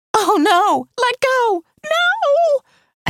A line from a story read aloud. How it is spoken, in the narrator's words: A teenager shrieked